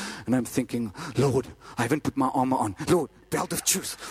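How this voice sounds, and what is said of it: Usual voice. Nothing is said of it.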